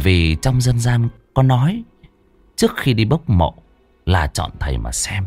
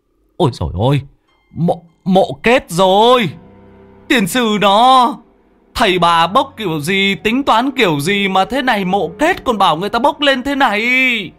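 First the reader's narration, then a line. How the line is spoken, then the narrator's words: Shrieking cry. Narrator (Vietnamese): Người trên bờ có người biết rú lên một tiếng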